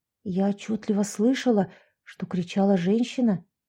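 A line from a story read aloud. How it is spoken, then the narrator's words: Whispered. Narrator (Russian): прошептала Яшка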